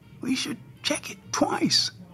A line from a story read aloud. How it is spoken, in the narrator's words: Santa muttered